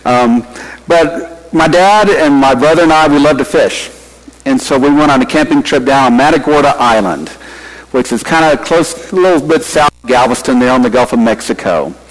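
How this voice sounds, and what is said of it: Texas accent. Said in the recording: “you've probably recognize the Texas accent”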